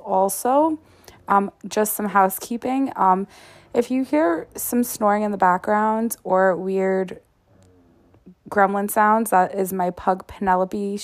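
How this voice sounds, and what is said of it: Slightly off voice, recovering from illness. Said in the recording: “I am recovering from COVID, so my voice is a little off. So if I have to clear my throat every now and again”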